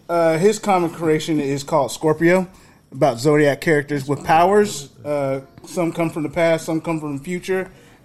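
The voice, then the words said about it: Slight Southern twang. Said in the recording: “I do not have a southern accent like everyone else. ... Got a little twangy talk. ... A little bit.”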